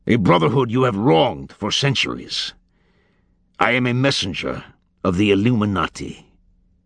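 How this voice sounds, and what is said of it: Cold, metallic, arrogant voice with accent. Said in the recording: “in an alien cadence, metallic and cold, laced with arrogance ... Langdon tried to place the accent. Middle Eastern, perhaps?”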